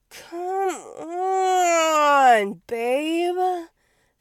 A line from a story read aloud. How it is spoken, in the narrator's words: Felix moaned